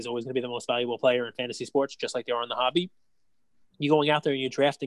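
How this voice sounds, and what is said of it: Usual voice. Nothing is said of it.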